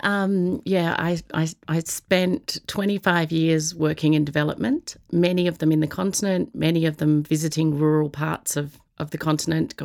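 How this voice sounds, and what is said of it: Australian accent. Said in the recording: “an Australian, because we've spotted your accent, an Australian-born national”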